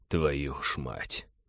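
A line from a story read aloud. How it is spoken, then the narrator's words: Muttered. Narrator (Russian): пробормотал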